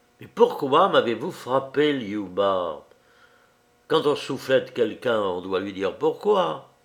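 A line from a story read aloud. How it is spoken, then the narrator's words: Dark, insistent voice. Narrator (French): répéta-t-il d'une voix sombre et insistante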